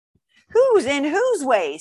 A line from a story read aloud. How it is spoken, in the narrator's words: snapped the south-going Zax